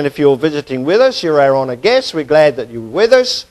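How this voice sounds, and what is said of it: Southern Alabama accent. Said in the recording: “he's got an Alabama accent. ... Well, Southern Alabama accent, anyway. ... I may speak funny”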